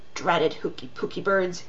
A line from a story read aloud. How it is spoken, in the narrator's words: he mumbled